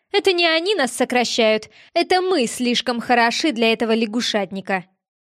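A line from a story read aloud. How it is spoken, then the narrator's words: Nervous snort, then speaking. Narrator (Russian): Наташка нервно хмыкнула, подхватила мою мысль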